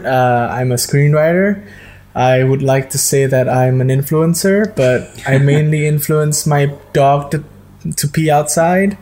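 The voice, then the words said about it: Indonesian accent. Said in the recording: “Indonesia, as you can tell from my accent.”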